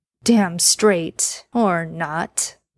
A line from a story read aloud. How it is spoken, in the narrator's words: Dean said with a chuckle